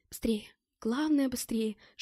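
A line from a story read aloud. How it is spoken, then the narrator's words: Urgent whisper. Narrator (Russian): шептала Мэтт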